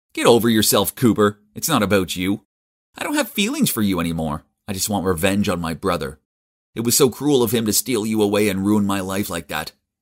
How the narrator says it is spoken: Elliot just laughed and said

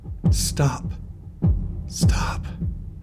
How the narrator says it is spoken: swaying uneasily, whispering

